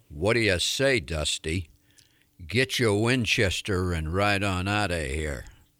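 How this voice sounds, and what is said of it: Impression of a Western film actor. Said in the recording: “my impersonation of another iconic Western actor ... That was really good.”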